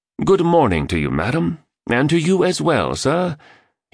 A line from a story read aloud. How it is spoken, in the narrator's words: enunciated in a British accent